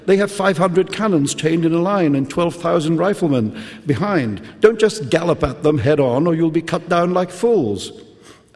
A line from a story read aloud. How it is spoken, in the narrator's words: cried